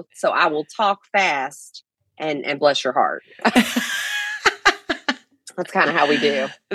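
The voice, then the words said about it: Fast-talking Southern Kentucky accent. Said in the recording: “You sound like you're from the South... I'm originally from Kentucky, so we got that accent... I have the accent, but I talk fast”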